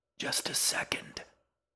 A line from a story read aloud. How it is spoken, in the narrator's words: the old woman whispered in irritation